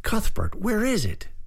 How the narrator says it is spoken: Bryce cried

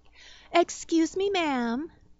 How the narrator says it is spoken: a female voice piped up

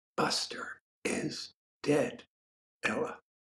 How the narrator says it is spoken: Herb said, so quietly that Ella didn't stir at the sound of his voice

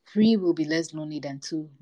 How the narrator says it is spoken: Mungo said

